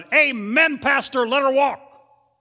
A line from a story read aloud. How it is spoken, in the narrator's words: someone out in the audience shouted